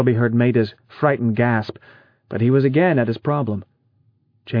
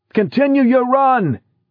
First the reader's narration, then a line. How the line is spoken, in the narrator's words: screamed